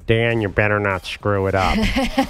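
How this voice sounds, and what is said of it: Imitates another person's voice. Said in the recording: “My Coach K impersonation. ... That's pretty good, actually.”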